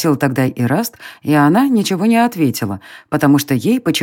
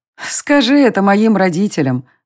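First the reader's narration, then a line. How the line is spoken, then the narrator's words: Laughing. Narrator (Russian): рассмеялась Дайра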